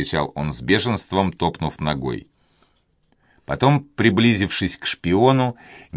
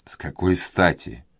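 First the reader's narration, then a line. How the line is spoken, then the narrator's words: Cold remark. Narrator (Russian): холодно заметил шпион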